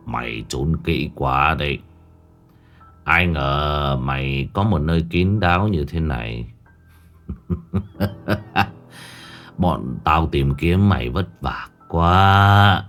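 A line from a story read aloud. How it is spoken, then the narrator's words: Cold voice. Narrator (Vietnamese): Giọng nói lạnh lùng cất lên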